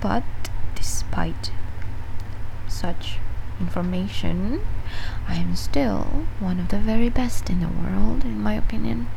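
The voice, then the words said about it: Foreign accent. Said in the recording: “from my accent, you clearly have figured out that I'm not from your country”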